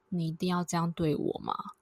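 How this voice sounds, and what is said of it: Very low, suppressed voice. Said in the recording (Chinese): “他是用非常低沉然后压抑的声音说 ... 真的非常压抑，那个气压很低。”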